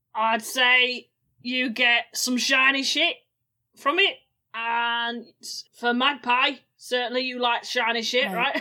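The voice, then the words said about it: Put-on Cockney character accent, slipping. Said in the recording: “My accent's just leaving ... the Cockney rhyming slang”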